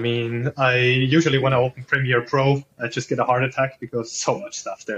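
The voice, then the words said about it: Non-native English accent. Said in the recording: “my crappy English accent”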